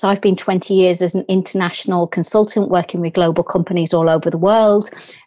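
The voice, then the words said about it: English Birmingham accent. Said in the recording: “As you can hear from my accent, I'm English. I was brought up in a inner city area in England called Birmingham.”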